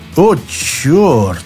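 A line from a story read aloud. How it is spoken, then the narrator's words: Muttered. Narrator (Russian): пробормотал секретарь горкома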